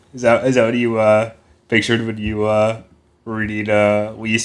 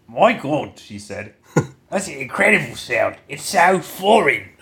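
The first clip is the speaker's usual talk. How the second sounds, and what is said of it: Put-on British accent. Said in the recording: “Do your British accent. ... Perfect. It's like listening to a mirror.”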